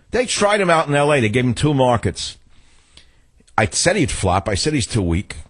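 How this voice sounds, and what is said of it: New York accent. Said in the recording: “my two New York accent”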